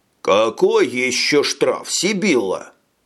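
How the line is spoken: Deep bass. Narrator (Russian): пробасил Рэм

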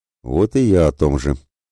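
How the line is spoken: Tired grumble. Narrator (Russian): пробурчал Святослав устало

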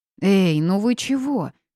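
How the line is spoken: Angry. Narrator (Russian): начала я сердито

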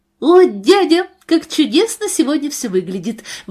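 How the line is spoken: Exclaiming. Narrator (Russian): воскликнула Нора

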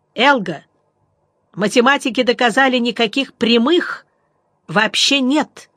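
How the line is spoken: Shout. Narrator (Russian): я крикнул

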